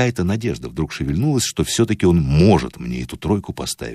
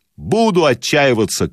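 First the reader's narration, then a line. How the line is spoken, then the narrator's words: Shouted. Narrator (Russian): крикнул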